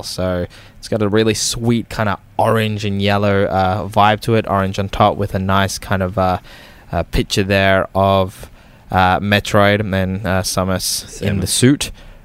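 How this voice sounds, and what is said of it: Queensland accent. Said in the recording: “it's just Queensland accent.”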